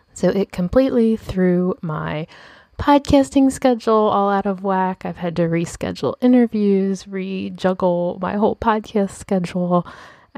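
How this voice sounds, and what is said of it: Voice of someone recovering from illness. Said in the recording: “I don't know if you can tell from my voice, but I'm actually getting over COVID”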